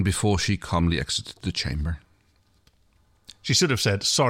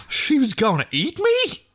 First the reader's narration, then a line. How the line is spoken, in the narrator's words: Crichton yelped